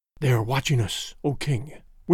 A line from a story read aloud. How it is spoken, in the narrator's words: whispered Busuli